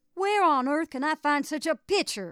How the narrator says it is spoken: I shouted, almost distracted

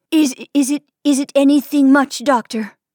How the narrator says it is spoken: She gasped

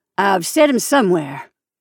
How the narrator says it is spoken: she said in a curt voice

